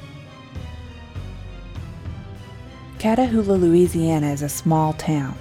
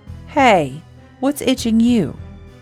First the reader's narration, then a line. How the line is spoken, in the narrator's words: Mitch asked him